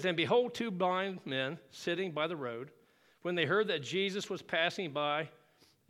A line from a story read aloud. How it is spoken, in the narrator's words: it says